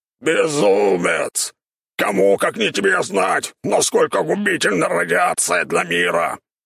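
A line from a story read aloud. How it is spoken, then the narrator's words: Boar shouting. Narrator (Russian): прокричал кабан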